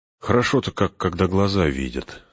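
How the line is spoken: Speaking after deep sigh. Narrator (Russian): сказал Фродо, глубоко вздохнув

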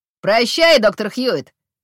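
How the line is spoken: Shout. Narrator (Russian): крикнул Калеб

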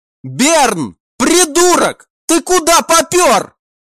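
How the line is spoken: Shouted. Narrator (Russian): крикнул Кайл

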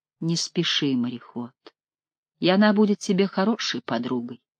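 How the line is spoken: Quiet. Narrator (Russian): Таис негромко сказала

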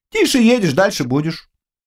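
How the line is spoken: Calm. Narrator (Russian): спокойно ответил Жунцзян

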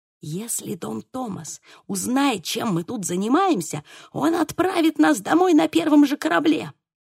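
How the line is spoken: Whisper. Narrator (Russian): прошептал Диего

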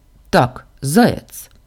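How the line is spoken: Mock-stern. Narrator (Russian): нарочито строго сказала

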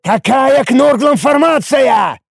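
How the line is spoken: Roaring. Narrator (Russian): взревел

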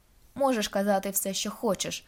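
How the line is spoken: Sharp reply. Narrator (Ukrainian): різко відповідаю

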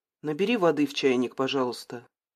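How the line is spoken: Mumble. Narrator (Russian): пробормотала она Артуру

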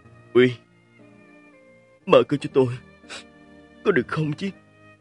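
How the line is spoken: Choked voice on phone. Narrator (Vietnamese): thanh âm nghẹn ngào của Mạch Quái

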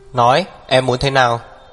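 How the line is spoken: Cold shout. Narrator (Vietnamese): Hắc Viêm Triệt lại lạnh lùng quát

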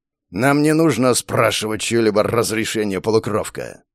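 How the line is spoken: Clear, growling accent. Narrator (Russian): произнесла вполне разборчиво на русском языке, хоть и с заметным рычащим акцентом

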